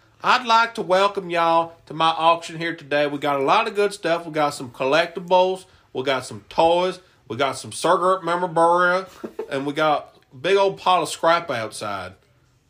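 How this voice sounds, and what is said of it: Put-on Southern US accent. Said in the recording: “I should just do it in a southern accent the whole time.”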